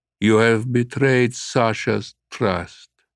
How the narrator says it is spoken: the figure replied, his voice hollow in the dome

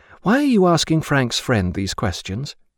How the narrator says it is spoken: she said

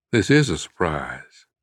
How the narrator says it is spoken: he answered calmly

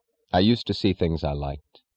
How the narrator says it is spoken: he said

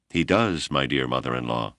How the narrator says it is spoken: replied evenly, launching her first barb of the evening

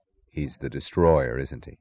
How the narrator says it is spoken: he said softly, with a glance that was almost compassion

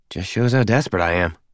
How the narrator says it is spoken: she muttered

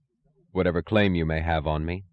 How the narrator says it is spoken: he said

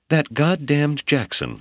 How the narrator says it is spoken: sputtered

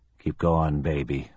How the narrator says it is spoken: a major whispered to himself

